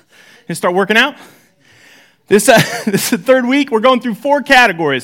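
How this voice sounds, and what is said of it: Out of breath, breathless speech. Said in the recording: “I'm out of breath already.”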